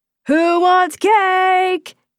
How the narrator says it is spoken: He yelled

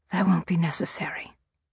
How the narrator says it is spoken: I said softly

